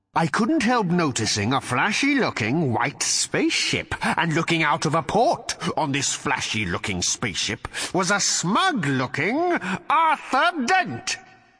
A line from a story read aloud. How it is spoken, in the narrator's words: he snarled